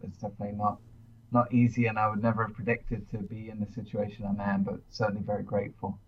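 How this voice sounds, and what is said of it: Mid-Atlantic British-American accent. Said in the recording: “a mid-Atlantic accent, originally from the UK, but I've been over here in the States now for about 15 years”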